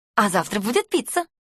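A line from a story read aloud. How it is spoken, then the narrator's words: Cheerful announcement. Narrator (Russian): весело объявляет тренер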